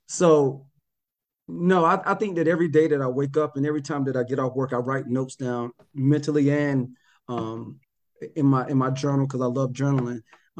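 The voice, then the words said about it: North Carolina accent. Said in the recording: “I still have a North Carolina accent.”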